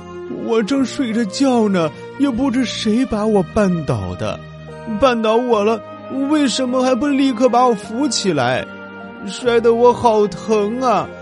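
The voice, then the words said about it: Soft, tearful, aggrieved voice. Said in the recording (Chinese): “小声的哭哭啼啼...轻声的哭着，一边委屈的说”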